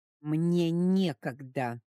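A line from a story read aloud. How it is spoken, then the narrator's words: Forced out, strained. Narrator (Russian): выдавила из себя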